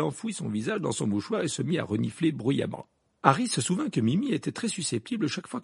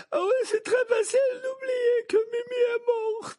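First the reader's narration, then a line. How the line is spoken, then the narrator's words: Sobbing. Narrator (French): dit Mimi Géniard dans un sanglot en le regardant de ses yeux gonflés de larmes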